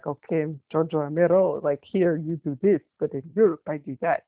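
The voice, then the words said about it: Put-on Italian man accent. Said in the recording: “my Italian man accent? It's great.”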